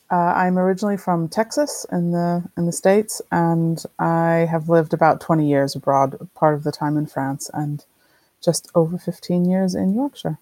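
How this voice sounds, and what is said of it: Non-British, American accent. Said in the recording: “As listeners can probably tell from your accent, you haven't always lived in the UK.”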